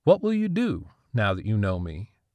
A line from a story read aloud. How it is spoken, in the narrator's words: He laughed